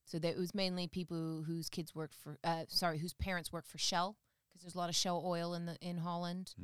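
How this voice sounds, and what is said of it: American-sounding accent. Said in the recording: “I went to the American School of The Hague growing up. ... Hence the accent.”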